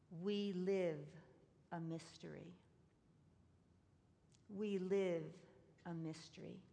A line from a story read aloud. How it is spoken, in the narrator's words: she quietly spoke